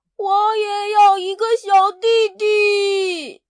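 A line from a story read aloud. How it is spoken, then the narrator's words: Disappointed shout. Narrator (Chinese): 他失望的大喊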